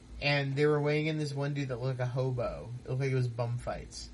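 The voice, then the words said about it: Irish accent. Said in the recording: “talk with like a funny Irish accent”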